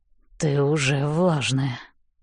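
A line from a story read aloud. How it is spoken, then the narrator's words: Hoarse remark. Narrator (Russian): хрипло замечает Хардин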